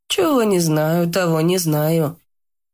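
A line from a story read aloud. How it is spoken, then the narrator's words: Woman's sigh. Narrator (Russian): вздохнула женщина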